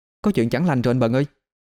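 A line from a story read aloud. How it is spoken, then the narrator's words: Breathless, panting. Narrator (Vietnamese): vừa đi cô vừa thở hổn hển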